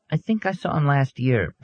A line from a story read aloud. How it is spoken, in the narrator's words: Betty said hesitantly